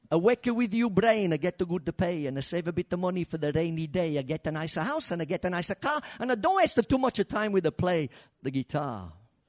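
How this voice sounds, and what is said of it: Put-on accent imitating a parent. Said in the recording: “this would be me Mum talking, by the way, right? I'll try and do the accent.”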